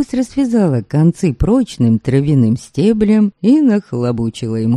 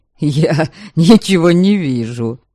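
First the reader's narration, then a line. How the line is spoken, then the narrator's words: Laughing. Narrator (Russian): Стейн засмеялся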